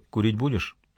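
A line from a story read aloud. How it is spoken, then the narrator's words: Quiet question. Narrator (Russian): спросил негромко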